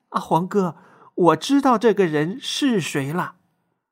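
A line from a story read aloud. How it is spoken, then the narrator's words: Muffled, suppressed laughter. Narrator (Chinese): 雪儿捂着嘴，强忍着笑说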